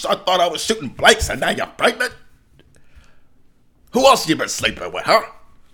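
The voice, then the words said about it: Al Pacino impression. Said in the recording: “my Al Pacino impression”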